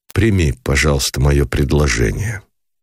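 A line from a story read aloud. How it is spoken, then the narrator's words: Cold interruption. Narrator (Russian): холодно прервал, не дослушав его Никитин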